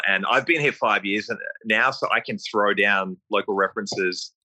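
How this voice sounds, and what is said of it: Australian accent. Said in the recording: “so many Australians that are here hanging out in Whistler that my accent doesn't really get a second glance”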